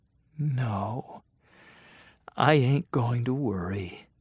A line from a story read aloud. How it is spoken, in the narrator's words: said softly